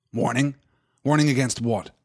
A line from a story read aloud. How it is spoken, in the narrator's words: said Boromir sharply